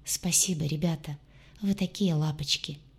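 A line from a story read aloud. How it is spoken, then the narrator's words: Tearful whisper. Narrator (Russian): прошептала, чувствуя, как на глаза наворачиваются слезы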